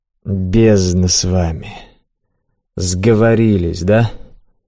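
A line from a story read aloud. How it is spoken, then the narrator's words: Gloomy, then a chuckle. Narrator (Russian): мрачно проговорил, но, подумав, хмыкнул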